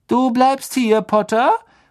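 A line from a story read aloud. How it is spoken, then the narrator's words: Call. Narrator (German): rief Malfoy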